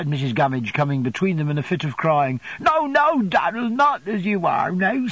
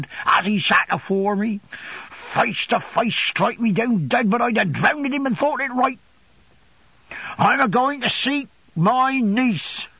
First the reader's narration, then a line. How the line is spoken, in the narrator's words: he said wildly